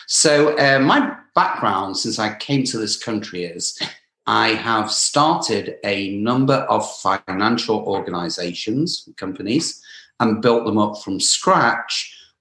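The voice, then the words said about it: British English accent. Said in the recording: “I don't have a typical American accent. So came originally from England ... may have the British accent”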